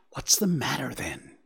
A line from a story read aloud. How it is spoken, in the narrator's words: whispered anxiously, but there was a tremble in his voice